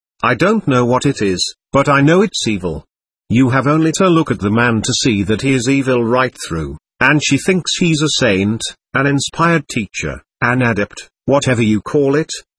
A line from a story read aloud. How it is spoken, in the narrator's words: added bitterly